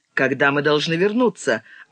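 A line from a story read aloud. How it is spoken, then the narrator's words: Curt question. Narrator (Russian): отрывисто спросил рулевой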